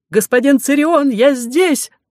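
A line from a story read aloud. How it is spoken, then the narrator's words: Shout. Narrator (Russian): закричал профессор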